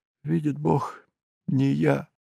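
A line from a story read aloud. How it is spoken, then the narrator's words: Sobbing, repeating. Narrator (Russian): повторял всхлипывая бедняк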